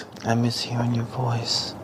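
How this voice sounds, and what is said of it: High-pitched soft girlish voice. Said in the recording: “ASMR voice ... I'm doing the girl voice ... It sounds like Mickey Mouse”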